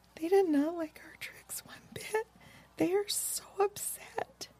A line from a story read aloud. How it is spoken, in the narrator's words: Lisa Ann became very sad suddenly and whispered softly